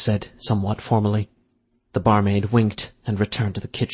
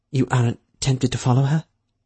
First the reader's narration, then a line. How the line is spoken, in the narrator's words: She kept her tone careful, neutral, not wanting to suggest anything one way or the other